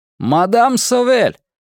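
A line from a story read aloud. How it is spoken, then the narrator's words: Loud distant shout. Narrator (Russian): громко крикнул он с веранды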